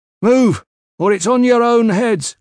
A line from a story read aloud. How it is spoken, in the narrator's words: Cruxer shouted